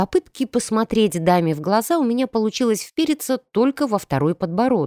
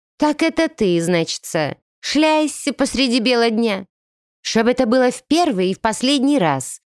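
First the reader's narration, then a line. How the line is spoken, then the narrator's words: Booming voice. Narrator (Russian): прогремела она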